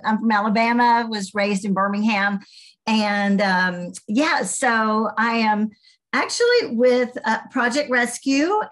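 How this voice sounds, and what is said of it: Southern American accent. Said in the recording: “you can tell I might have a Southern accent”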